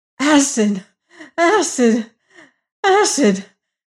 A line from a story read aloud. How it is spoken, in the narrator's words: gasped the prisoner